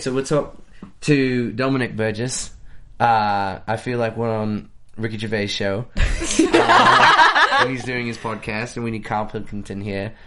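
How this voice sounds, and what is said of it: Put-on British accent. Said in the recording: “that's my British accent ... I've never actually done it for someone from England”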